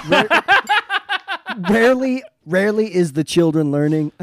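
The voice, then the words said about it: Imitates another person's voice, folksy. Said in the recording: “good George Bush impersonation ...is that little laugh, that little. ...you sound like fucking Cletus”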